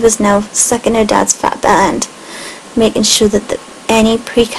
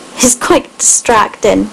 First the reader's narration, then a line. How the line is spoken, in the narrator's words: laughed